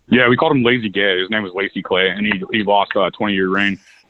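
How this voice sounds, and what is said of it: Missouri accent. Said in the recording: “you got that Missouri accent.”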